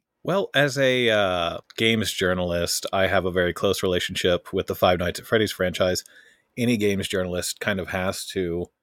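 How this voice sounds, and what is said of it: Polished radio-style voice. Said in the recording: “You definitely have like perfect radio voice”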